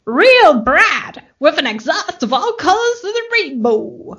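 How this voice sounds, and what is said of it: Exaggerated put-on accent. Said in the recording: “I'm going to do this accent. It's going to be really offensive.”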